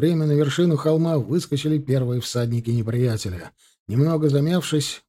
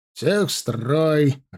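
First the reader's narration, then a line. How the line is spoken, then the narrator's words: Barked. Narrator (Russian): рявкнул Кравцов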